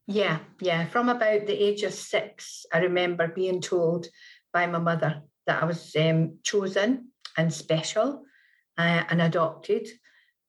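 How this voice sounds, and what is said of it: Scottish accent, hard to place. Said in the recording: “I am Scottish ... I live in Manchester in England ... I could not figure out your accent exactly”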